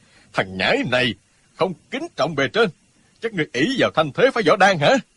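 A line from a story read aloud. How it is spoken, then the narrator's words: Hot-tempered loud shout. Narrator (Vietnamese): Lão vốn tính nóng lửa, bèn quát to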